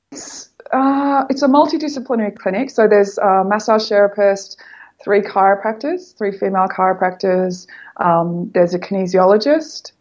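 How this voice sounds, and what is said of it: Speaks with a noticeable accent. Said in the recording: “No one can understand my accent”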